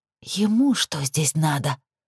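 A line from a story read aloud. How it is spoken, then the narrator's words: Angry hiss. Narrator (Russian): гневно прошипела Лилит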